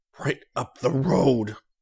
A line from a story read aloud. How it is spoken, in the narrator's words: Rick said through clenched teeth